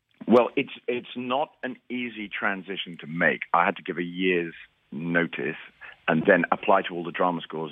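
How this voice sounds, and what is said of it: British accent. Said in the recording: “we can hear that in your accent. You're obviously British.”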